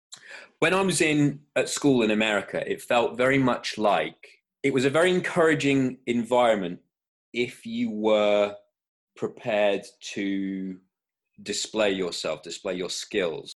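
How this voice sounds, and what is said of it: Hybrid accent, weird voice. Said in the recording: “my weird voice... my accent, I think, just bounced around all over the place... whatever this hybrid is now. I suppose that's the word for my accent.”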